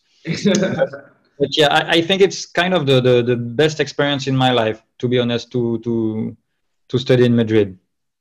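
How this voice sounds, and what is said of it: French accent in English. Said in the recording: “I will still have my French accent, which sometimes sometimes bad. ... The French accent is cool.”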